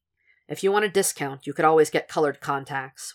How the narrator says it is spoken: Will said dryly

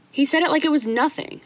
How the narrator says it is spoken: Louis exclaimed, just needing a moment to vent

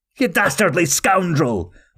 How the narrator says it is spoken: Officer Nixon shouted

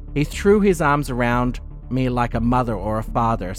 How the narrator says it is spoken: said Jürgen

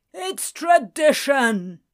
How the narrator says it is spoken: Shadwell bellowed

